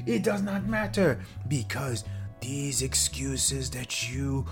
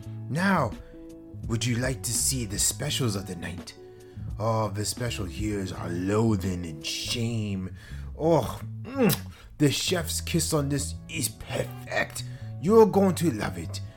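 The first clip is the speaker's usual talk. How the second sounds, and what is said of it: Vague mixed put-on foreign accent. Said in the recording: “I don't even know what kind of accent I'm doing right now. It may be from Louisiana. Oh, it may be French. It may be a little bit of Eastern European.”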